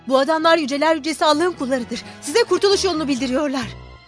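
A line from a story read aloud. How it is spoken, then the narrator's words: Shouting. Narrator (Turkish): diye bağırdı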